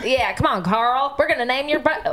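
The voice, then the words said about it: Poorly done southern accent. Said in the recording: “You just did a southern accent to the name Carl... It was a pretty butchered southern accent, too.”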